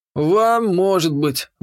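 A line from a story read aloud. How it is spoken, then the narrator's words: Resigned grunt. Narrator (Russian): буркнул Лин, смиряясь с лучевой судьбой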